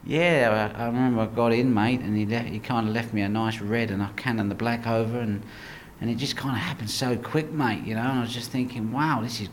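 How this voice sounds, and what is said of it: Put-on Australian accent. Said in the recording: “you do a really good Australian accent when you're doing some of them. It's pretty good... only in an Australian accent”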